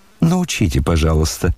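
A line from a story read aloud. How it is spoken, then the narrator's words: Laughing. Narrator (Russian): смеялась Аделаида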